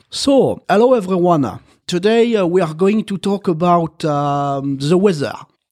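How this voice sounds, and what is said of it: Marseille French accent in English. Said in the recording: “I started to have an accent. And the Marseille accent is the worst... my mom learned English with a teacher who was from Marseille”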